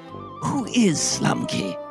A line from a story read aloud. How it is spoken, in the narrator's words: whispered Mr